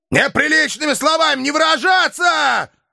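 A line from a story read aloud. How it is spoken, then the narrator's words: Dog's sudden bark. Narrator (Russian): Вдруг гаркнул пес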